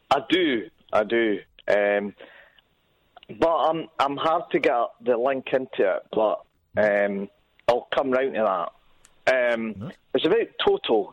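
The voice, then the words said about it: Distinctive, hard-to-imitate regional accent. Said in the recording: “I love your accent. I wish I could do it. I keep trying, but it's the toughest accent”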